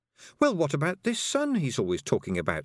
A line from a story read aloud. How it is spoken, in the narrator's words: said Tiffany